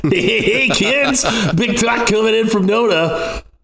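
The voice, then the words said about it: Shock jock radio voice. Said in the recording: “do my shock jock impression”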